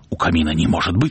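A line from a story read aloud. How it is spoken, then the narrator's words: Plain. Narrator (Russian): сказал он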